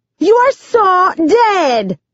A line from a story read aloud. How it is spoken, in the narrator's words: Bonita shrieks